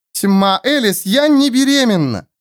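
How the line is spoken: Near-shout, ashamed and angry. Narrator (Russian): Чуть не закричала Мира, краснея от стыда и злости

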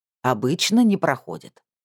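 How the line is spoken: Irritated. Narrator (Russian): раздраженно сказала Убартум

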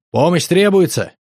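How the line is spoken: Loud question. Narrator (Russian): Я громко спросил

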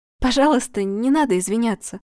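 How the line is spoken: Trembling voice, actress. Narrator (Russian): дрогнувшим голосом произнесла актриса Кулагина

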